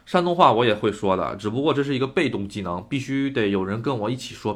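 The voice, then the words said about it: Mandarin with Northeastern accent. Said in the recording (Chinese): “我普通话中夹杂着大部分东北的口音”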